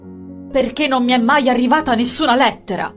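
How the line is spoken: Shouted. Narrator (Italian): gridò

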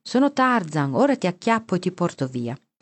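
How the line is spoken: Shouting. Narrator (Italian): Poldino gridava

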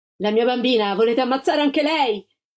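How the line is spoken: Desperate mother's cry. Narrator (Italian): La Gilda gridò

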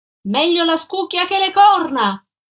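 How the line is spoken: Woman shouting. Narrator (Italian): gridò lei

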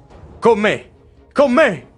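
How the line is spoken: Shouting. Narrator (Italian): grida rivolto ai suoi

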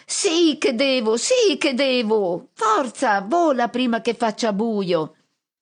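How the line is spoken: Shrill scream. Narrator (Italian): E Pit-Pit accanto a me strilla

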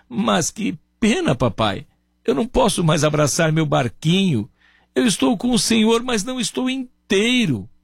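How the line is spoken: Boy sobbing, broken voice. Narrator (Portuguese): o menino, com a voz entrecortada, soluçando, dizia

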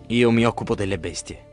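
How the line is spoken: Murmur. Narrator (Italian): mormora Ulisse

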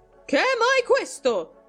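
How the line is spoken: Loud shrill shout. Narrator (Italian): gridò con voce alta e stridula

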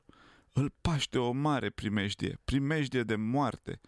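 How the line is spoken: Moaned, near fainting. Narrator (Romanian): a gemut fata, gata să leșine

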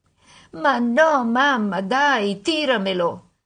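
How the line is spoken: Mock whimpering. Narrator (Italian): Alice fece finta di piagnucolare

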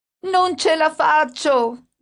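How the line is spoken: Shouting. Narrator (Italian): gridava mia madre

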